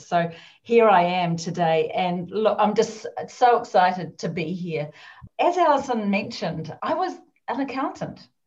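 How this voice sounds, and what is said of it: New Zealand accent. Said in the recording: “this crazy accent ... is that really an English accent or a Scottish accent? ... it's not. I'm actually a Kiwi ... I'm a New Zealander”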